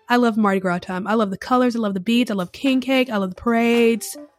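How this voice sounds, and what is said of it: Excited, enthusiastic voice. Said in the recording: “can you hear the excitement in my voice?”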